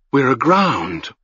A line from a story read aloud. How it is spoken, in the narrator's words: whispered